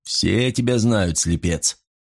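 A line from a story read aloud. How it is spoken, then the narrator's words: Chuckling. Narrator (Russian): человек хохотнул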